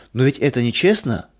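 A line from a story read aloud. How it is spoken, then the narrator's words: Child's exclamation. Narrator (Russian): воскликнул малыш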